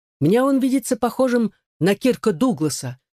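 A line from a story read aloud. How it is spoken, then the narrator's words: Exclaiming. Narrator (Russian): воскликнул Бортс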